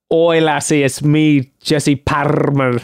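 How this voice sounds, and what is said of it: Put-on Scottish accent. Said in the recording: “We should just do Scottish accents instead of the French.”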